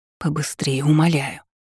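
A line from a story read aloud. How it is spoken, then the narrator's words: Mutter. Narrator (Russian): пробормотала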